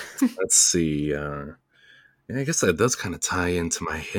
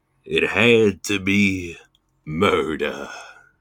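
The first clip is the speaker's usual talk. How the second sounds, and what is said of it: Imitates another person's voice. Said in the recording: “in my Bob Dylan voice”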